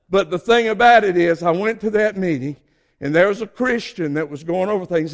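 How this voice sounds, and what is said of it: Southern US Georgia accent. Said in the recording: “I know you can tell I'm from Georgia. Y'all all talking about my southern accent ... I guess I'll always have that accent”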